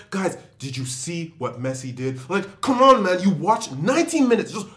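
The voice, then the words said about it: Aggressive, passionate rant imitating another person. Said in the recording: “a very good Mo impression ... not the voice ... You can't do it ... the aggression and the passion”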